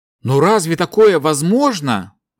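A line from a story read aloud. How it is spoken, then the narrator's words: Exclaimed. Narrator (Russian): Воскликнул смотритель глубин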